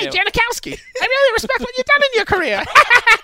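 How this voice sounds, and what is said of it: Suddenly much faster speech. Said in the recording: “did his voice just get a lot faster”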